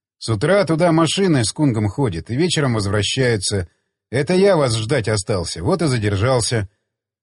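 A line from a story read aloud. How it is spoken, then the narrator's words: Calm reply. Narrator (Russian): спокойно, ответив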